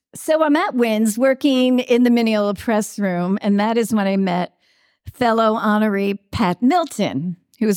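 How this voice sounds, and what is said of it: Long Island accent. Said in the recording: “oh, you're from Long Island... It's my accent, right?”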